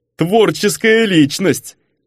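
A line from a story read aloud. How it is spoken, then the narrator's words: Approving chuckle. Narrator (Russian): одобрительно хохотнул герцог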